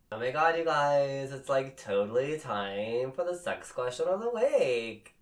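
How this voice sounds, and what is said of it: 80s Valley Girl voice. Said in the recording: “Was that your 80s? ... That was my 80s impersonation. ... Your Valley Girl impersonation. ... 80s Valley Girl.”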